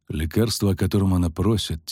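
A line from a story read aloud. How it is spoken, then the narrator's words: Quiet. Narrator (Russian): тихо проговорил Кагыр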